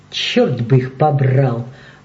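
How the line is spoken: Grumbling. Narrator (Russian): проворчал он

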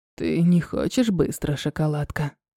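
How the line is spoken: Hoarse, revealing voice. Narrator (Russian): Хрипло выдавая себя с потрохами, говорит он

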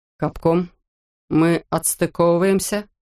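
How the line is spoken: Plain question. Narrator (Russian): спросил Китридж

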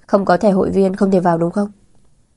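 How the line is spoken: Resigned sighing. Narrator (Vietnamese): đành chấp nhận, thở dài nói

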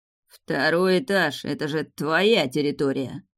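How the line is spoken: Grumbled, not very playfully. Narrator (Russian): пробурчал Раф, впрочем, не очень задорно

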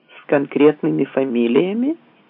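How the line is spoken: Plain. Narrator (Russian): спросил он

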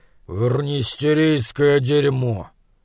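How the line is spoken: Grumbling. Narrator (Russian): он проворчал

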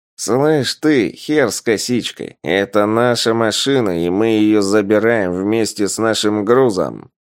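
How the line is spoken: Nasal rough voice. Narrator (Russian): Откликнулся гундосым голосом один из маргиналов

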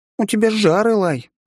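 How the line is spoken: Cheerful report. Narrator (Russian): радостно доложила она

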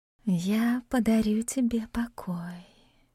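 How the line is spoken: Whisper against lips. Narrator (Russian): шепнула она мне в губы

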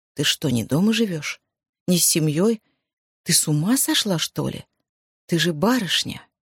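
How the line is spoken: Astonished mutter. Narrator (Russian): Оля изумленно пробормотала

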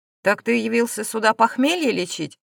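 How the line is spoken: Irritated question. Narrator (Russian): раздраженно поинтересовался Брис

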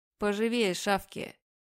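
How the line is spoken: Woman's rough, harsh urging. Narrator (Russian): Женщина грубо подгоняет

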